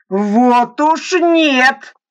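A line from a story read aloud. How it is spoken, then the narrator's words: Sudden shout. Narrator (Russian): закричал вдруг Верещагин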